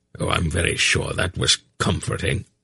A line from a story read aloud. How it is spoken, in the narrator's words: Belgarath said dryly